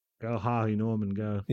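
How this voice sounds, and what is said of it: Australian accent, hard R's. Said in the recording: “you're hitting those R's too ... Hard, man. ... Australian ... doing an accent.”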